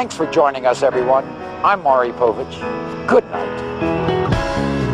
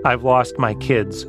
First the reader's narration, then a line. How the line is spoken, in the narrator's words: she said